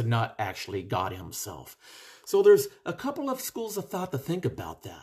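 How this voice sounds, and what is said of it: Usual voice. Nothing is said of it.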